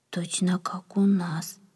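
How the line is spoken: Whisper. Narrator (Russian): прошептал кто-то

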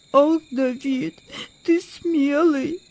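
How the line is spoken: Sobbing. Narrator (Russian): всхлипнул Владик

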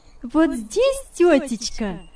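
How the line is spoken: Cheerful cry. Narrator (Russian): вскричала весело Яна

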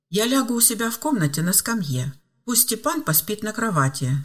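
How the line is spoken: Calm. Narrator (Russian): спокойно сообщил

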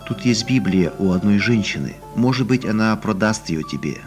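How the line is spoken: Plain. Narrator (Russian): ответила жена

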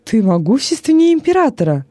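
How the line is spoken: Delighted exclamation. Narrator (Russian): с восторгом воскликнул Вениций

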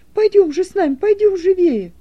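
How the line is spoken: Exclaiming. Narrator (Russian): воскликнул Стефан

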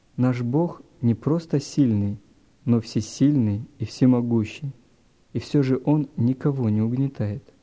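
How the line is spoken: Plain. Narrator (Russian): сказал папа

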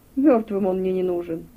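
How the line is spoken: Mocking. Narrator (Russian): насмешливо произнес Алук

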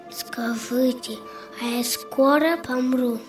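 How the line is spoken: Weak-voiced question. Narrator (Russian): Ванька ослабевшим голосом спросил

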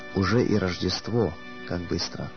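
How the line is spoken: Trembling voice. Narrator (Russian): дрожащим голосом он проговорил

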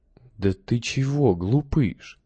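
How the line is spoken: Strangely soft voice. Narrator (Russian): вдруг странно мягким голосом сказал отец Петр

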